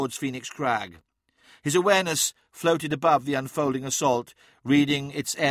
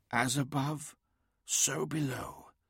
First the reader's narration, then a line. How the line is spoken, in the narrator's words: whispered Adamon